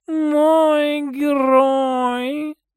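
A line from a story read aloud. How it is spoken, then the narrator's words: Purr. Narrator (Russian): Промурлыкала Рао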